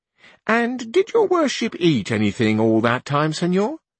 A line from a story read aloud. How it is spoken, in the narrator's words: asked the cousin